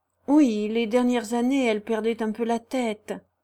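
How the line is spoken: Barber remarking sadly. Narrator (French): observe tristement le barbier

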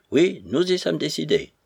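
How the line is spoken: Brusque repetition. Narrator (French): répéta Bazarov d'un ton brusque

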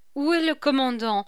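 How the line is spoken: Plain. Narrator (French): lui demanda-t-elle

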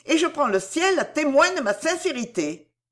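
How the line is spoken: Energetic exclamation. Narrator (French): s'écria-t-elle avec énergie

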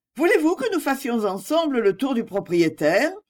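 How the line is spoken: Cheerful. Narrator (French): dis-je gaiement

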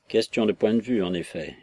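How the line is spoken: Grumbling, holding back tears. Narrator (French): grommela Jackson en ravalant ses larmes

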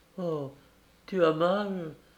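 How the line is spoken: Sobbing. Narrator (French): sanglota Appleton Éclair

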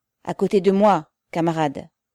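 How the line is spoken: Sharp curt shout. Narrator (French): cria Pavel d'un ton tranchant

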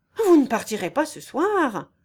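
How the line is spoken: Exclaiming. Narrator (French): s'écria Monsieur Antoine

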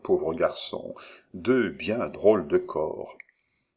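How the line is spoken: Calm murmur. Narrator (French): murmura tranquillement Monsieur Bruno

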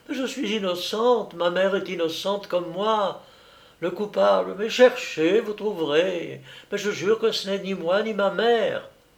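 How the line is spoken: Girl crying out, distraught. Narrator (French): la jeune fille s'écriait, l'air éperdu

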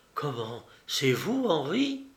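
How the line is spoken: Astonished exclamation. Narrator (French): s'exclama avec stupeur

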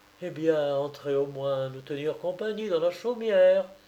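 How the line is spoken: Exclaimed. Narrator (French): s'écria Marie, la sœur d'Oulana

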